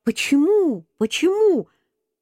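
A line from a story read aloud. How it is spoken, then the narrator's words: Shouting. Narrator (Russian): Я закричал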